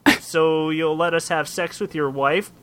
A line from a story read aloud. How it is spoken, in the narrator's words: replied Tootlin